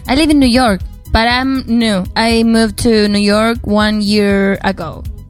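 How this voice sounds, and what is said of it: Argentinian-accented English. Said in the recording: “you have this Argentinian accent”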